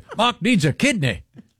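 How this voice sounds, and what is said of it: Poorly done unidentifiable put-on accent. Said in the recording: “I'm not sure what accent that is. ... I'm not good at accents.”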